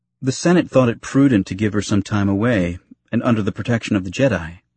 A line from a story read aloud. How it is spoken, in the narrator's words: he said, his tone casual, showing no reflections of the pain he was feeling